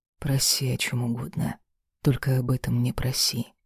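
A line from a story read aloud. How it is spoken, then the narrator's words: Grim. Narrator (Russian): мрачно проговорил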